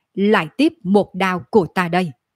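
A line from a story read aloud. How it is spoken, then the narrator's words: Cold snort, angry shout. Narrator (Vietnamese): Chiến hộ pháp hừ lạnh một tiếng rồi giận dữ hét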